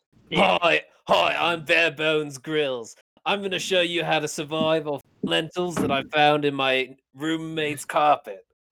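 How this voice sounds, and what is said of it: Imitates another person's voice, put-on accent. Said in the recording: “He was like South African or whatever accent you're doing ... This is a good impression ... he was either like New Zealand, Australian, or like South African”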